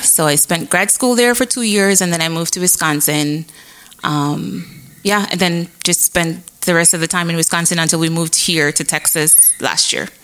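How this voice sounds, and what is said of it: Jamaican accent. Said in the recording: “you have a really cute accent ... I was born and raised in Jamaica. So I'm from Jamaica.”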